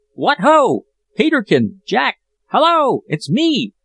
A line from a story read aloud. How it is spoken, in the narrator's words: My shout